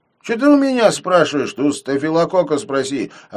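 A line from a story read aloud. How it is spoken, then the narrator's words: Snapping retort. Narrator (Russian): огрызнулся Хитров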